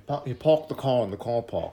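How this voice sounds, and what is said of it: Attempted South African accent. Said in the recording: “I was trying to do my South African accent... That sounded like a seizure.”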